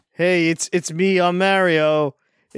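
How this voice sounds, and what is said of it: Canadian or Midwestern-sounding Mario voice. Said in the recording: “He has a Canadian or Midwestern accent now ... He has no Italian heritage anymore in his voice”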